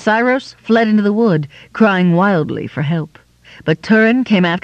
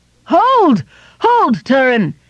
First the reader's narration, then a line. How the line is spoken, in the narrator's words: he cried